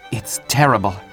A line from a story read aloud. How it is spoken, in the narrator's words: muttered Tybalt